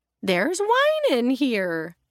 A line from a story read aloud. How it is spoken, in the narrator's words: Estelle exclaimed happily